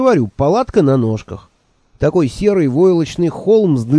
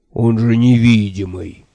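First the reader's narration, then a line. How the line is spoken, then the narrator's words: Dejected voice. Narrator (Russian): упавшим голосом сказал он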